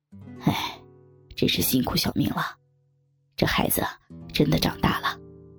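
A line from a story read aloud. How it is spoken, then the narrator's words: Sighing with feeling. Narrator (Chinese): 老公感叹道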